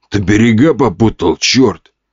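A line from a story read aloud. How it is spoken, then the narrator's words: Growled. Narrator (Russian): рыкнул лысый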